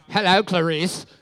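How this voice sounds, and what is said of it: Hannibal Lecter impression. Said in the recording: “your incredible Hannibal Lecter impersonation ... Impression”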